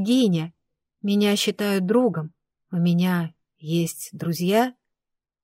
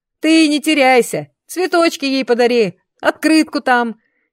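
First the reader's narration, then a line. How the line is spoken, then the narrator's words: Giggling. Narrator (Russian): хихикнул Канаш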